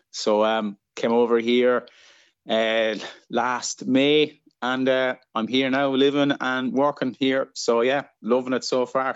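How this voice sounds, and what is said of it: Irish accent. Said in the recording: “you've got an accent straight up ... I'm Irish. I'm from Ireland. I'm from a place called Kilkenny in the southeast of the country”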